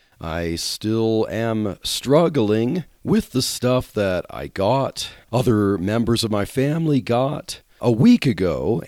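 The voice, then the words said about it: Strained, sick-sounding voice. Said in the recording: “my voice is a little strained right now”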